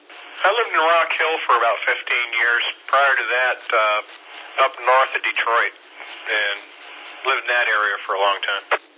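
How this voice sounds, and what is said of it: Non-local accent. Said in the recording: “We could tell he wasn't from around here ... you could tell by that accent.”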